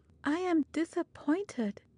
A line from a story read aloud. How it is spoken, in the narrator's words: she murmured in bitter reflection to herself